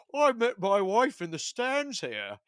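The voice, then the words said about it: Fake British accent. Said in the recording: “he starts talking in a fake British accent”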